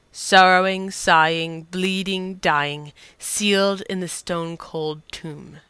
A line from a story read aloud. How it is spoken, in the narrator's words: the voice sneered